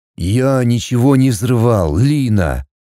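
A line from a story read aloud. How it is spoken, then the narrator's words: Harsh, uncharacteristic bark. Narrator (Russian): Не своим голосом рявкнул всегда веселый и спокойный Кирилл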